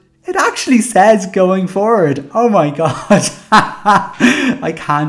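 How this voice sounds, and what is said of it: Usual voice. Nothing is said of it.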